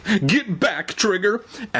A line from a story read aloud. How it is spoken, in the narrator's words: Evan pleaded